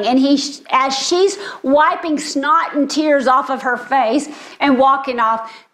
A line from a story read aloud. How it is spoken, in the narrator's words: Chad shouts